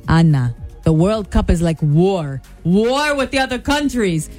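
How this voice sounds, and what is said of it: Imitated thick Italian accent. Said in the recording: “in his thick Italian accent”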